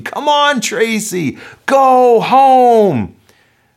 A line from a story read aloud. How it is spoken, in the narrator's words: Her coach is screaming